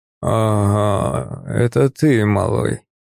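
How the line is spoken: Hoarse rasp. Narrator (Russian): прохрипел он

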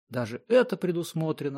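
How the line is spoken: Exclamation. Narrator (Russian): воскликнул Тенброк

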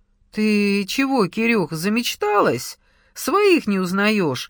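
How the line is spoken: Cheerful. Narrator (Russian): весело говорил Саша

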